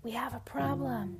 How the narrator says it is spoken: Abigail whispers

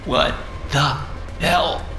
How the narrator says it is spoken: I gasped weakly

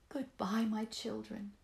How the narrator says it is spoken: the mother said sadly

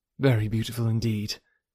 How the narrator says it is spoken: replied Emma, and she spoke so kindly

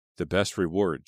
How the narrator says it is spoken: she said

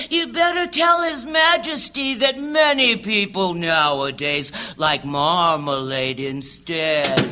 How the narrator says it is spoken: the Alderney said sleepily

